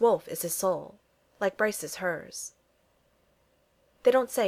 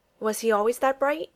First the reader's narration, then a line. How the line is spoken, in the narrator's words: he finally blurts out, the question coming out before he can stop to think